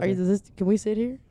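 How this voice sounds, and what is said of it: Imitates another person's voice, badly. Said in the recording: “That's a really bad impression.”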